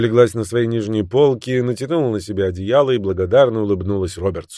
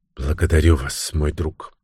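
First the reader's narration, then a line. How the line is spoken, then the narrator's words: Soft, gentle woman. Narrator (Russian): мягко сказала женщина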